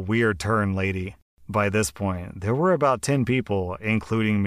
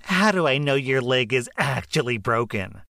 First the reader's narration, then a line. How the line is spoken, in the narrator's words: Karen yelled